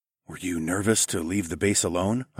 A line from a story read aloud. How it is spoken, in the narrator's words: whispered